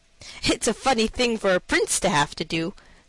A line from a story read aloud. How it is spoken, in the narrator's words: said he, laughing